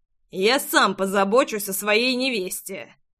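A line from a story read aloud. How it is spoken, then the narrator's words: Growl. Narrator (Russian): прорычал Джексон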